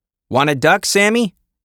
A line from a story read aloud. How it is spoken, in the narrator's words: shouted in his face